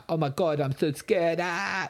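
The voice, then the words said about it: Imitates scared teenagers. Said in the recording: “That's a good impression.”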